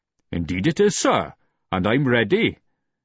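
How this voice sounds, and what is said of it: Pronounced Welsh accent, joking tone. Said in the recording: “He sounded as if it were a joke, and the Welsh accent was very pronounced.”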